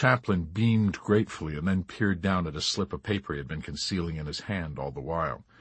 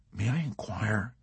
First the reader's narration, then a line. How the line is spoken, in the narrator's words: he whispered softly